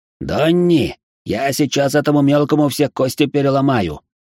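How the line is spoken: Hissed. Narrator (Russian): прошипел Макс

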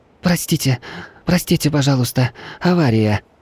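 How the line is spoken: Breathless hoarse rasp. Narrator (Russian): Переводя дыхание, прохрипела Катя

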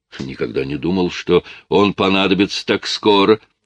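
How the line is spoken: Exclaiming. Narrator (Russian): воскликнул Йен

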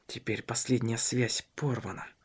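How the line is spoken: Whisper. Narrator (Russian): шептал он

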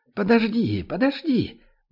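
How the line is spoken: Grandmother exclaiming. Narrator (Russian): воскликнула бабушка

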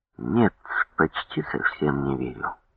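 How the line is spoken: Heavy sigh after pause. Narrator (Russian): Я помолчал немного, тяжело вздохнув, ответил

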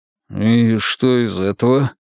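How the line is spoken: Uncertain drawl. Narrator (Russian): неуверенно протянул Волк

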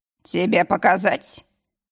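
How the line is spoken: Hoarse question. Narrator (Russian): спросил севшим голосом

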